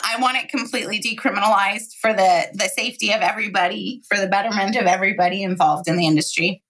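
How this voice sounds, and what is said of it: Hoarse, fading voice. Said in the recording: “I don't know why I seem to be losing my voice all of a sudden.”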